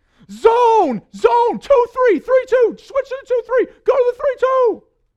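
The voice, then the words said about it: Shouted coaching commands. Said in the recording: “I just start shouting out ... starts shouting out all these different commands ... we're yelling”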